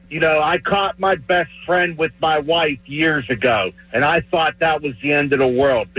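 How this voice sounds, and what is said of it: Pittsburgh yinzer accent. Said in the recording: “that's a yinzer right there... The accent and everything”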